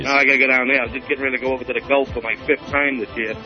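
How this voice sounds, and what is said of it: Boston accent. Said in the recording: “I'm really from Boston. You can tell by my accent.”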